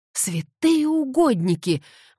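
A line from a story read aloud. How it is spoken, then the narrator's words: Exclamation. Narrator (Russian): воскликнула экономка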